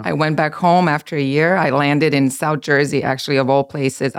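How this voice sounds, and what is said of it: Serbian accent. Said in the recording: “your accent is not from America ... I'm from Serbia.”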